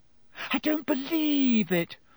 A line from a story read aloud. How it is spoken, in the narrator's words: Hermione wailed